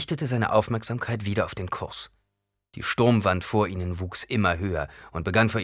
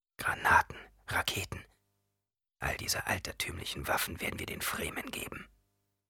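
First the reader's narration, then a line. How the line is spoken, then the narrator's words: Whispering. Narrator (German): flüsterte Paul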